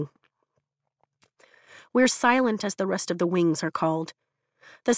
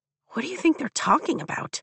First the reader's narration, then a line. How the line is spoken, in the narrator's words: Rhiannon whispers